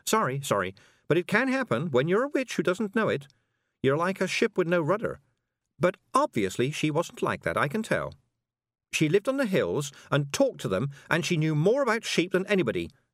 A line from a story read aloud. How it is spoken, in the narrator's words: said Tiffany hotly